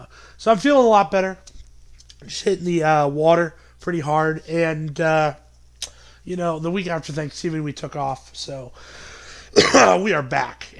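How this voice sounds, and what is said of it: Slightly raspy voice. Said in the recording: “I felt a little bit raspy in my throat. You can still tell it's a little bit there”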